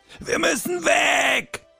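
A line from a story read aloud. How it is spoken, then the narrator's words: Roared. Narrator (German): brüllte Kai Weiß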